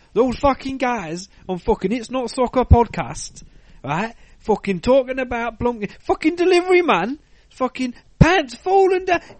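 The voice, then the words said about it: Poor imitation of another podcaster's accent. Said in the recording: “I probably just done the worst accent. ... I don't fucking sound nothing like me”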